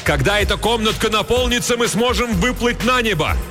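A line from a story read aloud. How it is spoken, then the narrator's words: Shouted. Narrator (Russian): Хилала закричал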